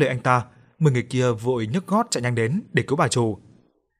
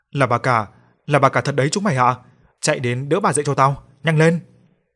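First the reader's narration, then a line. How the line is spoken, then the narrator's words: Hurried shouted order. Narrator (Vietnamese): Anh ta vội vàng quay sang quát bảo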